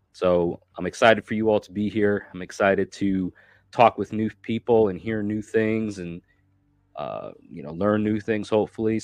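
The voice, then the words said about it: Sick-sounding voice. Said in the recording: “As you might can tell from my voice, I'm still fighting a really bad flu virus.”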